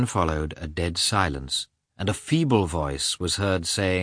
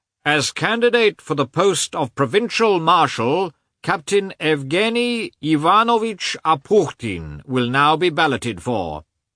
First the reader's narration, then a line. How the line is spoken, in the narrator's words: a man in uniform who announced in a loud, shrill voice